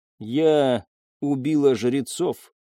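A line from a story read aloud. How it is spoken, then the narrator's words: Plain. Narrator (Russian): сказала она наконец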